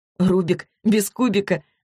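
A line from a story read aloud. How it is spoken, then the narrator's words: Laughing. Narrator (Russian): засмеялась Злата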